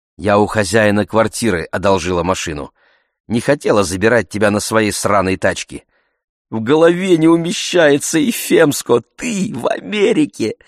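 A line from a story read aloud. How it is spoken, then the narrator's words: Plain. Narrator (Russian): сказала Гиника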